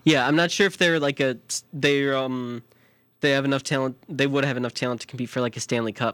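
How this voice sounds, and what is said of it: Chicago accent. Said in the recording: “My Chicago accent's coming out a lot today. Did you hear the word I said? Talent.”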